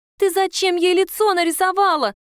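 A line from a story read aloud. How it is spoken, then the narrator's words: Shouting. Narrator (Russian): кричала она на Катю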